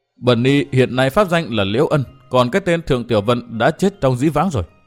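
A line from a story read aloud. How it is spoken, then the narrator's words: Trembling woman's voice. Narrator (Vietnamese): nàng mới cất giọng run run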